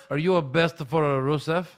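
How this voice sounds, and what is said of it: High, thick Russian accent. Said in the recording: “High, thick Russian accent again.”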